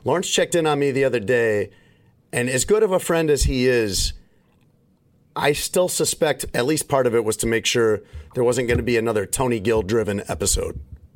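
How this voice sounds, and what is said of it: Voice not fully recovered, slightly impaired. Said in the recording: “I don't know if you guys can hear, my voice is not 100%. It's better. And hopefully it's tolerable, but it's not 100%.”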